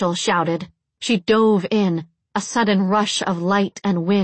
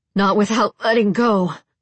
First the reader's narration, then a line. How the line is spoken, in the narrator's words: Molly grunted